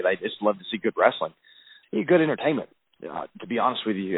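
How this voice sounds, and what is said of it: Southern US accent. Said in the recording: “as a Southerner ... I don't have to worry about my accent. People can totally understand what I'm saying from Alabama.”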